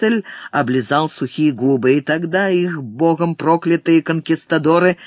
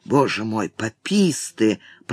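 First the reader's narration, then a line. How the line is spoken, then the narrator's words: Muttering. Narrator (Russian): пробормотал кто-то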